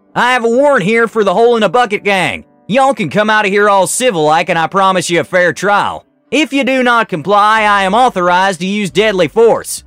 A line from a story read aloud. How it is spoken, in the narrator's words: yelled